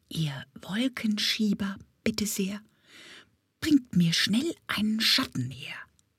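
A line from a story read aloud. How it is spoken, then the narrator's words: Whisper. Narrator (German): flüsterte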